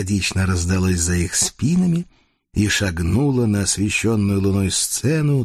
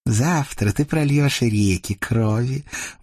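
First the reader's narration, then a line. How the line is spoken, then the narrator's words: Purring. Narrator (Russian): мурлыкнула Агата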